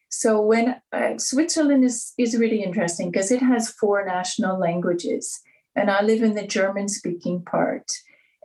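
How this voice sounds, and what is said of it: Noticeable foreign accent. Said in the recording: “Okay, so you have an accent. I mean, I think any of us listening to you right now will be picking that up.”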